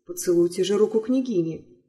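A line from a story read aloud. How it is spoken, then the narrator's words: Plain. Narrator (Russian): сказал папа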